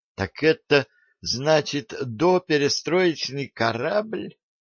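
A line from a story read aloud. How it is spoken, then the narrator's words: Strongly trembling voice. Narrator (Russian): непонятно вопросила Надя сильно дрожащим голосом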